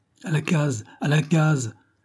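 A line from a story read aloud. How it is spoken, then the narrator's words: Shout. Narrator (French): cria Mathias Van Guit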